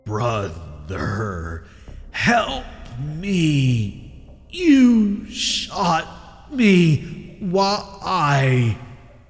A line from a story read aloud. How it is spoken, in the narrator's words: The animal croaked